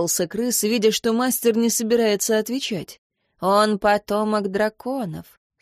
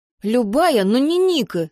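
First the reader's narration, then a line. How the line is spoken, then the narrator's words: Angry blurting fox. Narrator (Russian): сердито выпалил лис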